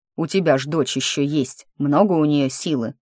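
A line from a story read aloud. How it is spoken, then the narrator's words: Growl. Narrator (Russian): Фремантель зарычал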